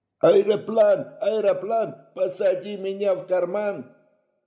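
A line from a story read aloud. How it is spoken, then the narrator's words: Ecstatic group yelling. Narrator (Russian): Восторженно вопил он вместе со всеми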